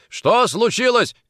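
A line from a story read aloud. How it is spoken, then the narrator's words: Shouting. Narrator (Russian): крикнул Никитин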